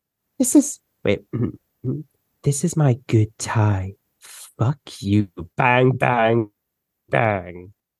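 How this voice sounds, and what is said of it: Angry, pissed-off character voice. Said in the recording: “That voice. That's the voice... I just be pissed off all the time.”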